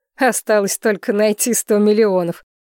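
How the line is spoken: Giggling. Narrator (Russian): хихикнул Несина

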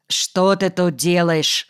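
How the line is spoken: Plain. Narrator (Russian): спросил он

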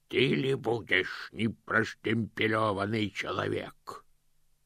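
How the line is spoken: Growl. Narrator (Russian): прорычал один из них

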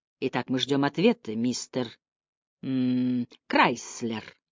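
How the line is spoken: Soft. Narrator (Russian): сказал он мягко

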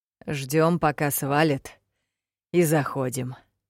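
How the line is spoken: Hoarse voice. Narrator (Russian): хриплым голосом сообщил

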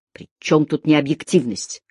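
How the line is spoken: Snapping retort. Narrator (Russian): огрызнулся Деккер

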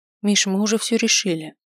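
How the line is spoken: Quiet reminder. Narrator (Russian): тихо напомнила

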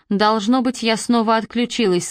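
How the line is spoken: Plain. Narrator (Russian): сказала она

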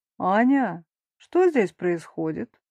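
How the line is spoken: Thunderous stranger's voice. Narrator (Russian): добавляет незнакомец громовым голосом

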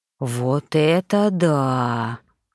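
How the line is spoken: Drawn-out dog's drawl. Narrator (Russian): протянул мастиф

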